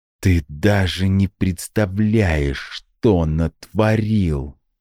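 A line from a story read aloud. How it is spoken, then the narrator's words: Hissed again. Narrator (Russian): вновь прошипела Ада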